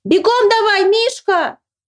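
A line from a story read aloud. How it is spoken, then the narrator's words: Shouting. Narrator (Russian): закричал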